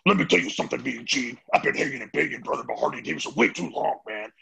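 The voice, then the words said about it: Hulk Hogan impression. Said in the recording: “I do the best Hulk Hogan impersonation”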